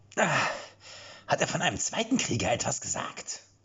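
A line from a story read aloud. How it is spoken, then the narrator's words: Squawking question. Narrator (German): fragte Jan mit einer quäkenden Stimme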